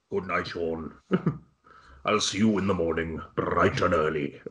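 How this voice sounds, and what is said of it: Affected Swansea Welsh accent. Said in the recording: “an affected Swansea accent ... Sounds like some kind of Welsh demon ... alarmingly close to old Dickie Burton”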